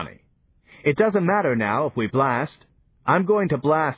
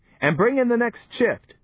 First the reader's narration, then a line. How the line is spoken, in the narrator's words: shouted Johnny